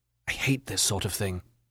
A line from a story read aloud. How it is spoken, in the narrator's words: whispered